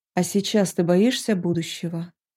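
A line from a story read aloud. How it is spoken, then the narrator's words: Quiet question. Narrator (Russian): негромко спросил дракон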